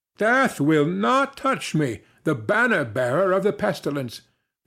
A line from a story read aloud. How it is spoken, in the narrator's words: cried